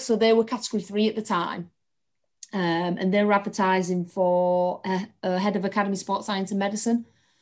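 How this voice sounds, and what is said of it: Hull English accent. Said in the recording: “I'm from Hull, which you can probably tell from my accent”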